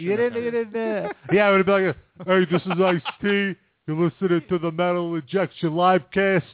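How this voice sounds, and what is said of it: Ice-T impression. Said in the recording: “You should just do it in your good impression.”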